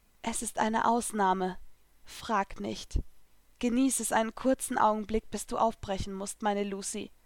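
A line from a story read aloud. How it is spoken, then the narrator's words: Softly. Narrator (German): sagte leise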